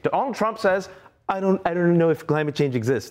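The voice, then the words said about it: Imitates another person's voice. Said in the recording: “my Donald Trump impression.”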